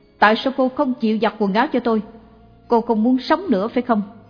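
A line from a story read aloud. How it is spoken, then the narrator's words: Shouting. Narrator (Vietnamese): Người nọ hét lên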